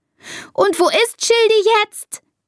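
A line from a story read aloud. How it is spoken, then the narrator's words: Shouting angrily. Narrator (German): schreit Elisa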